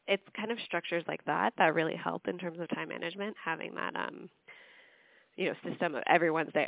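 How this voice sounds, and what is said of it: Hoarse, fading voice. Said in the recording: “sorry i'm losing my voice”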